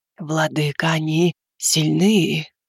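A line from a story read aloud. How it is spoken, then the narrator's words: Muffled groan, head down. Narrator (Russian): Глухо простонала шелковая тень, не поднимая головы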